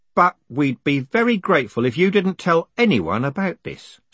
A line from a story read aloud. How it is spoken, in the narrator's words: said Carlton quickly